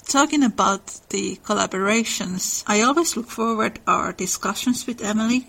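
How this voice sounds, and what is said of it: Finnish-accented English. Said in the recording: “I am from the enchanted land of Finland ... Your accent is adorable”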